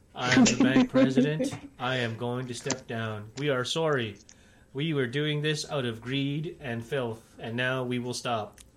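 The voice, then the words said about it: Banker character voice. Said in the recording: “your wonderful banker impression.”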